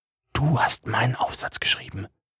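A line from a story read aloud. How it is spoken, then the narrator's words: Whispered. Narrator (German): flüsterte ich ihm zu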